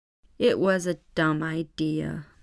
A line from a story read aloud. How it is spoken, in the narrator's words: mumbled Jack